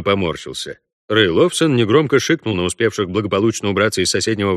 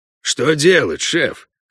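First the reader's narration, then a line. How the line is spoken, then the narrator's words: Hoarse question. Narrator (Russian): хрипло спросил Бюскермолин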